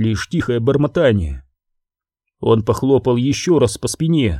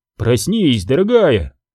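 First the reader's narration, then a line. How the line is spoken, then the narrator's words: Exclaiming. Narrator (Russian): воскликнул Грофилд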